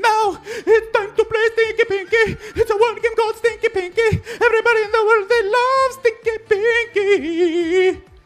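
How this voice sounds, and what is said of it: Sung jingle in falsetto. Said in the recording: “That's a beautiful falsetto.”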